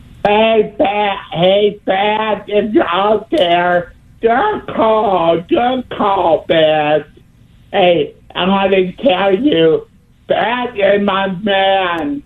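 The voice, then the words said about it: Yelling loudly. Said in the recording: “Why are you yelling?”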